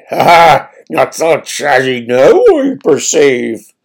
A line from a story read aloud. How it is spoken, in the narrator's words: chuckled the churl